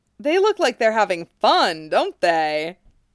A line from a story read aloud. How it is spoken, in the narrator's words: Yamamoto asks cheerfully